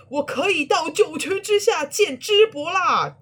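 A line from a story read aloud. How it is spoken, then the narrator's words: Wounded roar. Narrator (Chinese): 砍了三刀的豫让大吼一声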